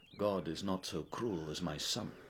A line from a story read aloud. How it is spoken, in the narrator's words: She mumbled